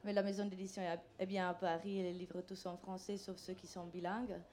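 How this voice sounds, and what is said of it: Charming foreign accent in French. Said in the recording (French): “un charmant accent”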